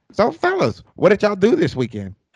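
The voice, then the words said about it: Imitates another person's voice. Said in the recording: “I'll do my best Tom impersonation.”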